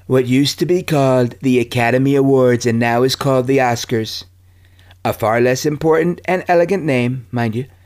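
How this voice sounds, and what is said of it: Imitates another person's voice. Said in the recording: “I'm going to do part of it in my Trump voice, but, you know, it's not easy for me.”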